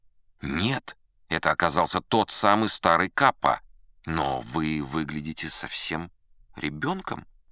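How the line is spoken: Muttered. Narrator (Russian): пробормотал я

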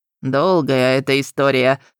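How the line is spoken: Snorting. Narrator (Russian): хмыкнул Локи

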